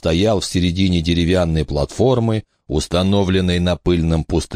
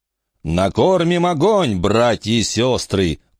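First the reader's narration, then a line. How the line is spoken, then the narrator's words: Roar. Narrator (Russian): проревел Джим Джет Фальконер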